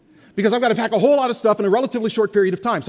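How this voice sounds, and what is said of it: Very fast speech. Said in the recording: “I'm talking really fast ... listen fast the way I'm talking fast”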